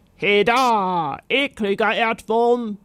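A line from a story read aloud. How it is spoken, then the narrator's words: Knight's roar. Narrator (German): brüllte der Ritter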